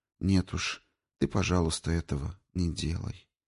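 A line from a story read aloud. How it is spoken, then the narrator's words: Quiet request. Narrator (Russian): тихонько попросила она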